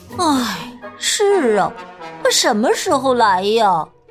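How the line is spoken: Sighing. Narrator (Chinese): 玛塔叹了一口气

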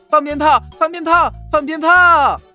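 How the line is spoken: Excited joyful shout. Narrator (Chinese): 小尾仙可开心了，蹦蹦跳跳地喊

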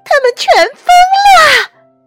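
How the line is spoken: Nurse yelling. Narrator (Chinese): 护士大叫

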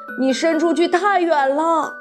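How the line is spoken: Calling out. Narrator (Chinese): 格鲁普先生叫道

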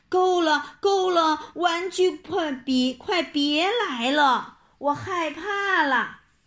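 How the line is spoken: Frightened scream. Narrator (Chinese): 珍妮看见了，吓得大叫起来

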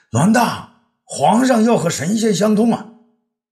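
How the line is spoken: Frightened urgent shout. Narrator (Chinese): 公孙卿吓得出了一身冷汗呐，急得在武帝身后大叫

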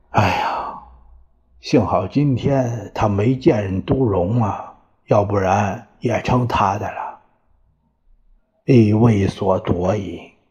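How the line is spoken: Unhappy sigh. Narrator (Chinese): 他很不开心，叹了口气呀

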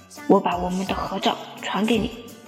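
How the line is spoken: Muttering. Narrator (Chinese): 她一边玩我手机，一边嘀咕着

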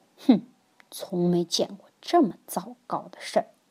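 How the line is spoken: Grumbling mutter. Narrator (Chinese): 爸爸却咕哝着

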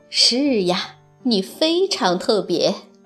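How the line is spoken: Warm, smiling. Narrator (Chinese): 熊妈妈笑着

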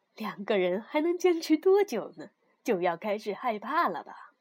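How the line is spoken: Cheerful, grinning. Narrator (Chinese): 比他大几岁的木村老师笑嘻嘻地说

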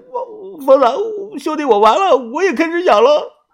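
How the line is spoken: Crying. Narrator (Chinese): 哭着说

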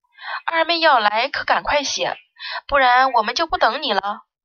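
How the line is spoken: Comforting, smiling. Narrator (Chinese): 锦朝却安慰的笑道

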